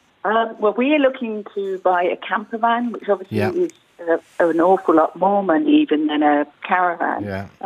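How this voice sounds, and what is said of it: English accent. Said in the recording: “as you can tell by my accent, I'm English originally”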